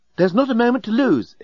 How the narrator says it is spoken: exclaimed the remarkably attractive and remarkably available female alien

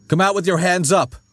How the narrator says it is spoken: he shouted

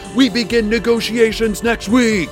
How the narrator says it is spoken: Hadassah shouted

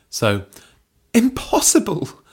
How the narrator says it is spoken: spluttered Belinda

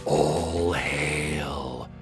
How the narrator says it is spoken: A few of the dragons are whispering upon seeing the cloud approach

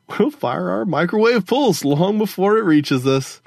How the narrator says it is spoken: Gogo Fernanda laughed

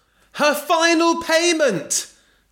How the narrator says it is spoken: shouted Belinda

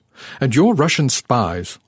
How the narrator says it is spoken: Arnaud snapped, as if a blunt accusation could justify our intrusion

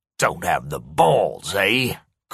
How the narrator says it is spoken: Corey sneered

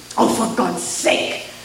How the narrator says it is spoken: Nina hissed in frustration

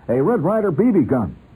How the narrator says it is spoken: Horrified, I heard myself blurt before I could stop

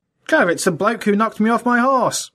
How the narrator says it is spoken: exclaimed Otterbridge

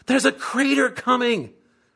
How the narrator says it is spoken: Sandy screams

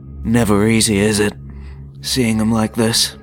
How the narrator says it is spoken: the Annihilator sighed in his baritone voice

